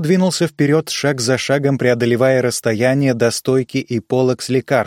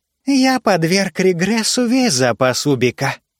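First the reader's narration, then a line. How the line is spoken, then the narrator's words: Young thin voice. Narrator (Russian): сказал аптекарь молодым тонким голосом Джори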